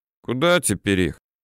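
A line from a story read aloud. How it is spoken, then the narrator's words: Lazy question. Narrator (Russian): лениво интересуется Степа Тринчук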